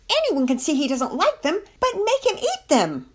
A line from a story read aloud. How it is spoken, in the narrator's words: Penelope wanted to yell